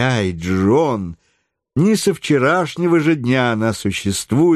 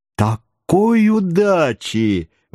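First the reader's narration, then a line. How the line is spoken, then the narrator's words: Cheerful exclamation. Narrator (Russian): воскликнул весело Паганель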